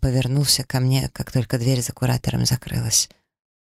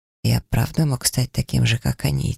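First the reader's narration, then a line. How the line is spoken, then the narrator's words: Quiet question. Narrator (Russian): тихо спросил он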